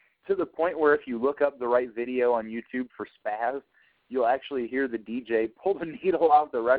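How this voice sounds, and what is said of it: Usual voice. Nothing is said of it.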